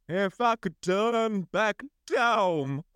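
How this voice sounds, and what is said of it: Sung impression ending in horse-like sound. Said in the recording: “my Cher impression ... It was good when you turned into a horse at the end.”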